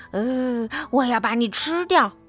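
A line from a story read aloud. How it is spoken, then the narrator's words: Growling roar. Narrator (Chinese): 麦克斯也吼着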